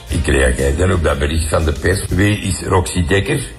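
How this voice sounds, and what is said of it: Light Flemish accent. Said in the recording (Dutch): “het lichte accent”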